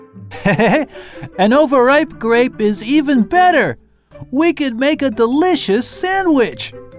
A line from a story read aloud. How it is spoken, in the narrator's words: he laughed and said